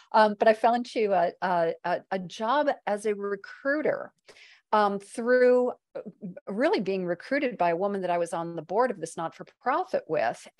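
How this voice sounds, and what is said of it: Speaks with a non-local accent. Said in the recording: “you can tell by my accent, I'm not from around these parts”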